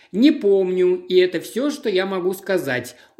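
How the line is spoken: Sullen mutter. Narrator (Russian): угрюмо пробурчал Сендерфилд

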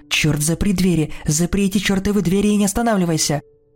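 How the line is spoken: Exclamation. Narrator (Russian): воскликнула

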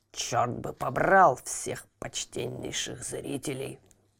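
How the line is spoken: Grumbling. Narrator (Russian): проворчал он

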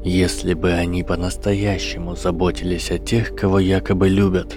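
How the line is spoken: Quiet. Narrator (Russian): тихо сказал профессор защиты

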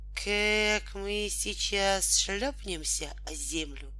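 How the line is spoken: Flat wooden voice. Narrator (Russian): сказал тогда Волька деревянным голосом

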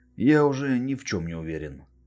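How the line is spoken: Sighing. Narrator (Russian): вздохнул Рэй

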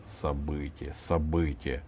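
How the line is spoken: Muttered. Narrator (Russian): пробормотал Иван

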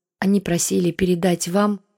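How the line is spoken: Sigh. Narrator (Russian): вздохнул Татищев

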